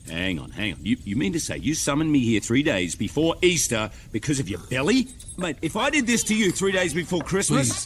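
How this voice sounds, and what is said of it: Australian accent. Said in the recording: “the Easter Bunny has got an Australian accent, which is very strange. ... Yes, it is Hugh Jackman.”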